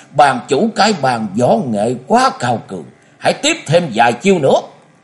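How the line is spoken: Old man laughing loudly. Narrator (Vietnamese): lão cười lớn và nói

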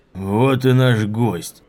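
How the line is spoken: Booming joyful voice. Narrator (Russian): прогремел зычный радостный голос

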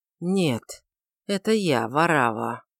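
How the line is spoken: Muffled, strained self-control. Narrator (Russian): со страшным усилием овладев собою, он глухо ответил

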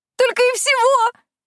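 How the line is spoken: Shrill squeal. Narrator (Russian): взвизгнула

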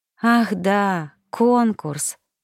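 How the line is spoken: Sighing. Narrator (Russian): вздохнула я

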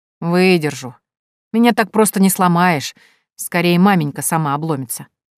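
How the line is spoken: Grumble. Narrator (Russian): проворчала Минадора

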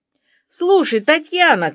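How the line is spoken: Policeman shouting into phone. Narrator (Russian): кричал в трубку милиционер Вася Курочкин

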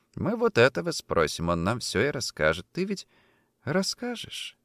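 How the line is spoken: Affectionate question. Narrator (Russian): Ласково интересуется

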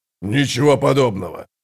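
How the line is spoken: Frowning deep bass. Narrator (Russian): пробасил Брут, между бровей которого залегли глубокие складки

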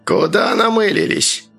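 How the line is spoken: Creaky flat tone. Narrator (Russian): проскрипел начальник безликим тоном

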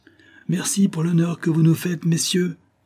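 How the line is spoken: Shouted. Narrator (French): cria Yorsko

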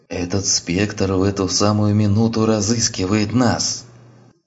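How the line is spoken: Voice fading to hoarse whisper. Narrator (Russian): Переходящим в хриплый шепот голосом предупредил доктор

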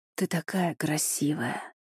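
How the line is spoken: Murmur. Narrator (Russian): пробормотал

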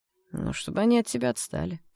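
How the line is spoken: Calm reply. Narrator (Russian): спокойно ответил Серж

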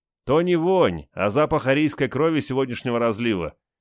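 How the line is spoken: Snide reply. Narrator (Russian): ехидно ответил капитан

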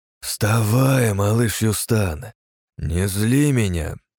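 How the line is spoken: Disappointed, through gritted teeth. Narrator (Russian): разочарованно процедил я

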